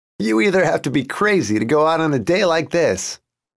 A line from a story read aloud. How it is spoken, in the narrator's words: Jason said, laughing